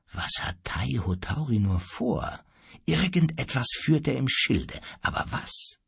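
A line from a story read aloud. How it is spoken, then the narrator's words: Quiet question. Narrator (German): fragte leise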